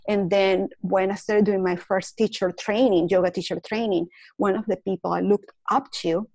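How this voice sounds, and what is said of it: Non-native accented English. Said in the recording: “I was made fun of for my accent”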